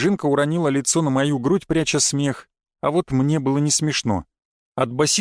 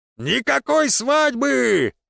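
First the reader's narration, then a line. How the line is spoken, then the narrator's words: Hall-filling shout. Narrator (Russian): прокричал он на весь зал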